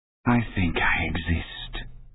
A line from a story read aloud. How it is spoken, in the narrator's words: he said wearily